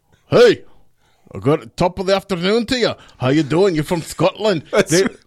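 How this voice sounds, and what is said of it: Put-on Scottish accent. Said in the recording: “That's how good my accent is... So that's my Scottish.”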